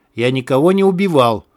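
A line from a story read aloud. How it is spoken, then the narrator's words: Growled. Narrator (Russian): прорычал Белов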